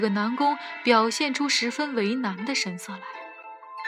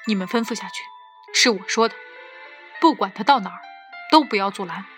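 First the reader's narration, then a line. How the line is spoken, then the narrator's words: Low deep voice. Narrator (Chinese): 我沉声道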